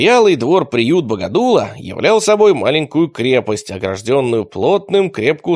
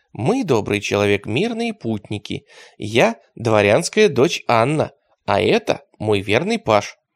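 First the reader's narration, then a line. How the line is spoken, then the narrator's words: Very tender voice. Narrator (Russian): Лука произнес самым нежным голосом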